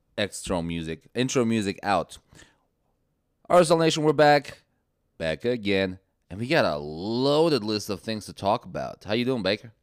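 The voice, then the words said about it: Raspy, rough voice. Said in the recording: “You sound like death ... you sound a little raspy.”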